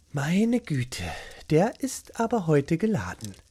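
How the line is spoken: Sighing murmur. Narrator (German): seufzte und murmelte

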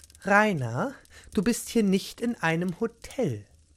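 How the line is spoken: Calm reply. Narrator (German): erwiderte Beate ruhig

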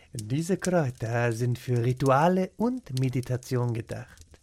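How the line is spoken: Quiet explanation. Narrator (German): erklärte leise

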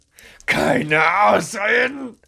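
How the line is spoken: Roared. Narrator (German): brüllte er

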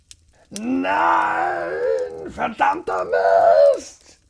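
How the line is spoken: Bellowing. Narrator (German): brüllte Rainer

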